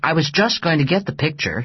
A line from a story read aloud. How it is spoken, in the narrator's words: said impatiently